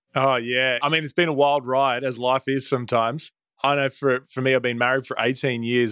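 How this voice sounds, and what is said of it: Australian accent. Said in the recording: “you got an awesome accent... growing up in Australia”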